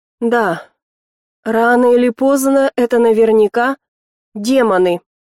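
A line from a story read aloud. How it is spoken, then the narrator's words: Near growl. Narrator (Russian): почти зарычал сокурсник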